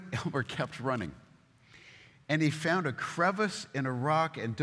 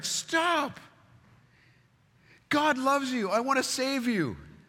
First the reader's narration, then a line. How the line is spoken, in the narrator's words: man cried out